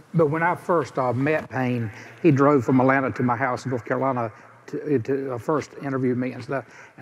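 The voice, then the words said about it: Regional accent, likely Southern. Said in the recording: “I don't think my accent is going to go over. I think it might hurt the podcast”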